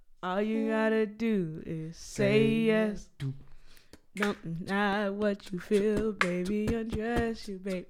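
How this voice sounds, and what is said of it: Singing in a very low voice. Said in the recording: “I can't sing like them... I can't sing... I was super low. My voice was got low.”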